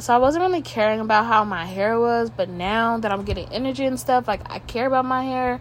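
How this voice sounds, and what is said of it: Stuffy, congested voice. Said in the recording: “I feel like I sound stuffy... Oh, a little bit. I am a little bit stuffy.”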